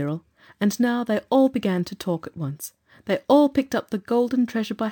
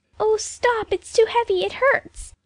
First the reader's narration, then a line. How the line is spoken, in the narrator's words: Jane was not half buried before she cried out